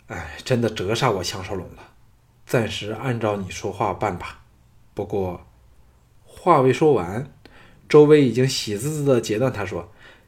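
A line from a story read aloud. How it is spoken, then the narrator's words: With a light sigh. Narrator (Chinese): 轻叹一声说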